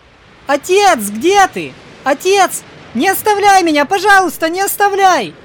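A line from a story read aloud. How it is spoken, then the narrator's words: Terrified scream. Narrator (Russian): В ужасе закричал Джон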